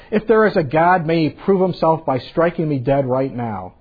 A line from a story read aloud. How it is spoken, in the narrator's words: the atheist who proudly shouted out